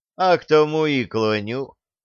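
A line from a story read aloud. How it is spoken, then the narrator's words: Calm reply. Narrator (Russian): спокойно отвечал Никомат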